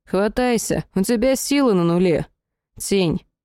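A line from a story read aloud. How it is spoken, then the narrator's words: Tired voice. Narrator (Russian): голос того самого с графическими изображениями в глазах устало произнес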